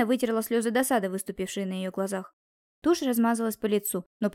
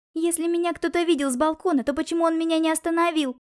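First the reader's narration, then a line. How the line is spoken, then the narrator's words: Sobbing outcry. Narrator (Russian): выкрикнула она, всхлипнув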